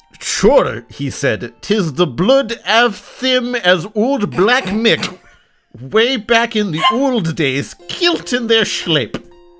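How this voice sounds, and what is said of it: Put-on Scottish accent. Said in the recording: “do you have some Highlands ancestry of your own? ... I'm thoroughly Slavic, which is why that slipped in a little bit there ... I can't do a Scots accent”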